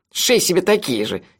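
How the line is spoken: Snide advice. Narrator (Russian): ехидно посоветовал Мелифара

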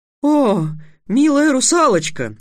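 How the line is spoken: Exclaimed. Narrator (Russian): воскликнула Груя

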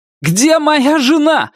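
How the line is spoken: Shouting into phone. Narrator (Russian): закричал Вик в трубку

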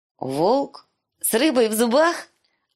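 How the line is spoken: Laughing loudly. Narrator (Russian): Она расхохоталась

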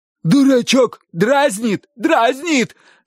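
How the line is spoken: Shouted, uncle. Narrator (Russian): закричал дядя

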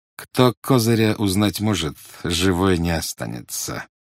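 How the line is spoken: Muttered through gritted teeth. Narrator (Russian): сквозь зубы процедил специалист

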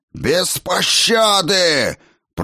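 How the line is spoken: Roaring. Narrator (Russian): проревел молодой дракон

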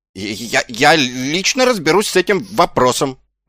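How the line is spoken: Stammering mutter. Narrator (Russian): заикаясь, пробормотал Ван Пью

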